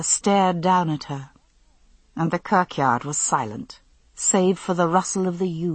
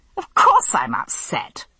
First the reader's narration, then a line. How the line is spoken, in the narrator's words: I snapped